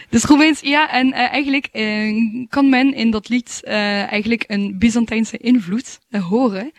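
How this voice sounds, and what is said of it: French accent in Dutch. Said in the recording (Dutch): “Je hebt een prachtig Frans accent”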